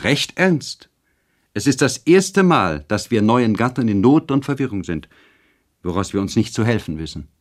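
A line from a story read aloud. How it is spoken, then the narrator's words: Called out. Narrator (German): rief Charlotte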